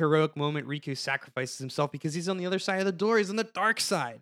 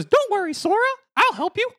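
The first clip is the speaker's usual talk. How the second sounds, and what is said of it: Mickey Mouse cartoon voice impression. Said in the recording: “that was a very good Mickey Mouse impression. That was actually pretty good.”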